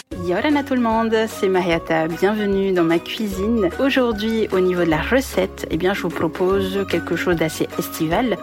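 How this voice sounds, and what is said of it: A nice regional accent. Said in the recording (French): “avec un bel accent, tiens”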